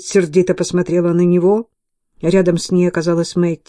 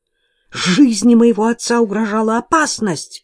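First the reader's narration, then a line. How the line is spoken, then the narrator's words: Exclaiming. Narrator (Russian): воскликнула она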